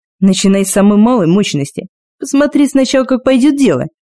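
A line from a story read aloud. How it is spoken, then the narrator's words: Loud laughter. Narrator (Russian): Кости захохотал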